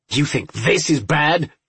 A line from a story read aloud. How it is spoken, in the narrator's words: Myers snarled